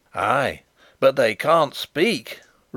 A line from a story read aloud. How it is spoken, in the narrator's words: roared Sapt in grim triumph